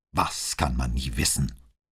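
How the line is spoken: Snapped. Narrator (German): schnauzte Brunetti

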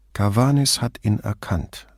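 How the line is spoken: Slow, distracted. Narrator (German): sagte Brunetti langsam, mit seinen Gedanken schon weit voraus

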